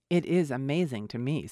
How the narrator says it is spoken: said Bingley

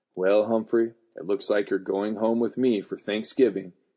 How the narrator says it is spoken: she said grimly

